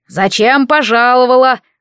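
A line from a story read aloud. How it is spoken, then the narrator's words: Menacing question. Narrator (Russian): грозно вопрошал он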